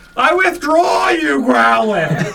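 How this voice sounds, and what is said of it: Loud yelling. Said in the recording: “You're yelling. ... We're just going to hear you yelling at each other. ... Is anybody else's ears fucking ringing after that?”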